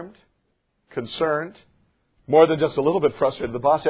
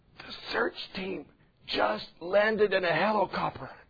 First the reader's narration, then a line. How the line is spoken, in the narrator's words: In an odd, hushed voice, the child answered